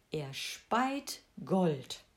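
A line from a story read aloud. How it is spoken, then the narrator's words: Plain answer. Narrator (German): antwortete der Müller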